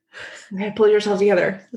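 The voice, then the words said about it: Mock stern mom voice. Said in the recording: “that's the mom voice”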